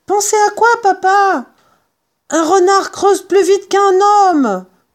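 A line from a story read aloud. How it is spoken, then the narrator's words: Yelling. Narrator (French): hurla Maître Renard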